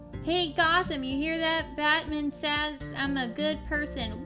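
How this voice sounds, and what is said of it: Attempted New York accent drifting Southern. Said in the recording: “I could not do a New York accent off the top. Like, I tried, but then it went southern.”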